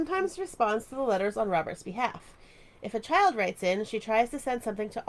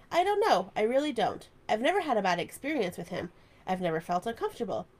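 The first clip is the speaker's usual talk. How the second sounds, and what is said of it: Imitates another person's voice. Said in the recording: “That was a good impression”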